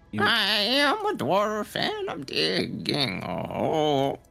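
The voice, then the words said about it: Playful dwarf character voice. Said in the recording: “He's doing his impression of what he thinks of what a dwarf is like.”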